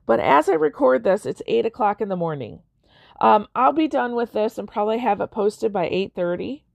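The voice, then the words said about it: Voice sounds worn, going out. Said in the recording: “I feel like my voice is going out”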